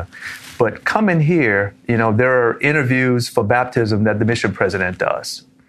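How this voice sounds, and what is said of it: Louisiana regional accent. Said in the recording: “I sound a little different, right? And I've heard that all my career outside of Louisiana”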